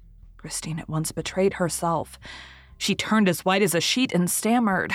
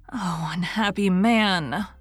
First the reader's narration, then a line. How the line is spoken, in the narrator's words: moaned the girl, showing every sign of unspeakable terror